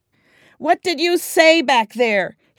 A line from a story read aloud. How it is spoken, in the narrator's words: he shouted